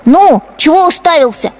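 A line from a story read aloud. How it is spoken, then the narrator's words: Boy shouting. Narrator (Russian): кричал поросенку хозяйский сын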